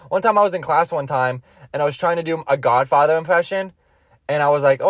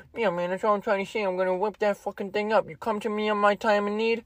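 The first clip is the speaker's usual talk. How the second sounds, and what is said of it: Poor Godfather-style mobster voice. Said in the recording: “trying to do his best impression of Godfather ... Awful. Awful. Awful impression.”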